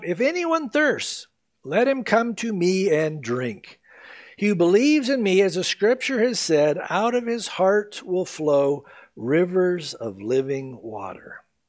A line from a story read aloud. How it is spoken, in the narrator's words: Jesus stood and cried out